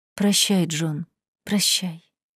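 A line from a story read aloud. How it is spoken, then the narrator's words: Whisper. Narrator (Russian): прошептала Долли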